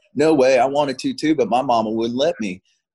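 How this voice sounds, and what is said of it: Thick Southern accent. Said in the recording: “I hear this like thick Southern accent behind me.”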